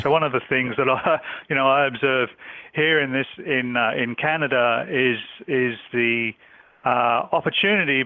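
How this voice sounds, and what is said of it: Australian accent. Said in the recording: “this is not a Canadian accent, but it's an Australian accent.”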